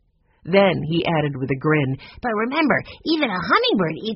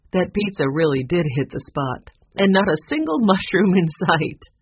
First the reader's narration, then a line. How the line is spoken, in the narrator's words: said with a laugh